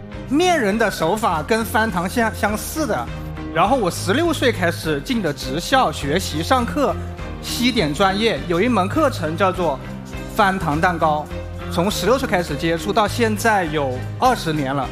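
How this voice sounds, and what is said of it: Guangxi-accented Mandarin. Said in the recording (Chinese): “您这口音不是天津人呢？ ... 你听我口音就像广西人嘛。”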